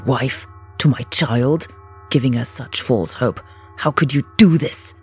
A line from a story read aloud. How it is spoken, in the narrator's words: Balazs hissed at her